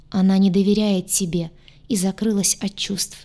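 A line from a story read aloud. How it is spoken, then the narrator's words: Sad sigh. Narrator (Russian): грустно вздохнул Гадюша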